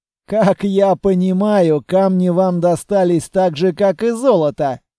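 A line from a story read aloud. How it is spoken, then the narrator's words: Laughing. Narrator (Russian): рассмеялся аудитор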